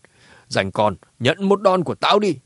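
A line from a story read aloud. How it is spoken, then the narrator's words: Angry old woman shouting. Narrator (Vietnamese): Bà cụ kia nhíu mày cả giận quát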